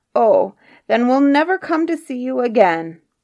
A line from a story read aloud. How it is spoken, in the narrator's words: bawled out the troll away in the wood